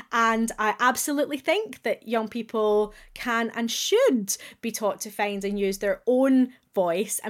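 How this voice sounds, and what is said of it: Glaswegian Scottish accent. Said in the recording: “as a proud Glaswegian, you will hear that I have retained my accent”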